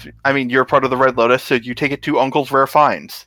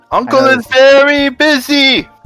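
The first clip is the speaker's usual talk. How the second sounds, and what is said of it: Exaggerated stereotyped foreign accent. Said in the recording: “comically slightly racist accent? ... That's the proper accent.”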